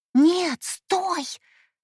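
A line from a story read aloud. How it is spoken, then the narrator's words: Hissing. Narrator (Russian): зашипела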